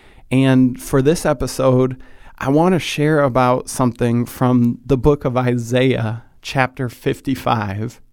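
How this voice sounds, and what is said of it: Sick, weird-sounding voice. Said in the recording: “I'm guessing you can hear in my voice, I'm still kind of getting over this flu thing ... sorry that it sounds kind of weird. It sounds weird in my headphones”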